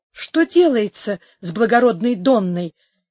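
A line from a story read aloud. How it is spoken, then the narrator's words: Concerned exclamation. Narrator (Russian): с заботливостью воскликнул патер Антонио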